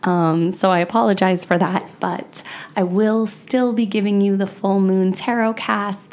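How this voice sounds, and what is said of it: Congested, stuffy voice. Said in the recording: “I've been working with a cold, so you might hear that in my voice”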